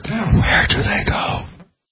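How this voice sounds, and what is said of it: Creepy whisper. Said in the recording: “let me give you a creepy whisper”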